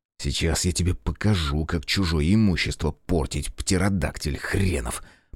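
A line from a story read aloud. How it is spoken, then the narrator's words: Muttering. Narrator (Russian): пробормотал я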